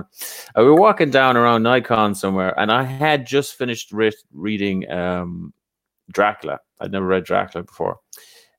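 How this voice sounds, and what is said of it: Speaker's own distinct accent. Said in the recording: “I like how you say Dracula with your accent.”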